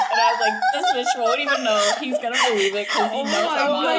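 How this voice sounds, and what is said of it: Usual voice. Nothing is said of it.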